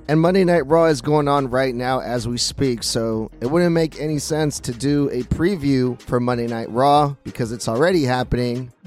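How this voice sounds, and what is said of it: Rough, damaged voice. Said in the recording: “please excuse my voice. It is really fucked up right now”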